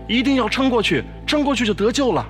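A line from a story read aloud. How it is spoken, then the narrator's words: Shouting. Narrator (Chinese): 马元江……他也喊着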